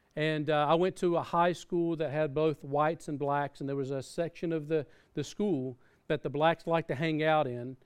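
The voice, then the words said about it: Southern American accent. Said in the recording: “As you can tell by my accent, I grew up in America. And I grew up in the South.”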